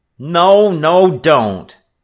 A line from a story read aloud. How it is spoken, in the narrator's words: Frisco Kid cried